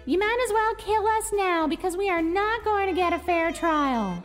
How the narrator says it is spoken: When Susan shouted

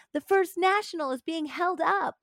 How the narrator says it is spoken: entered shouting

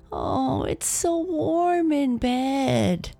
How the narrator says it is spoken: Natalie would moan

